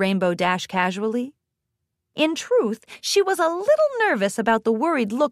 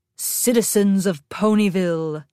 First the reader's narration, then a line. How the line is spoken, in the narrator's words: bellowed in her rich, deep voice